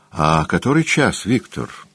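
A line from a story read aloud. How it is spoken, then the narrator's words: Sleepy question. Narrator (Russian): сонно спросил Дориан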